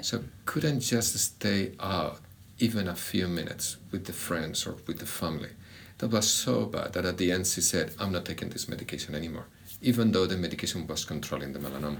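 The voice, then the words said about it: Spanish-accented English. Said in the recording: “a beautiful Spanish accent”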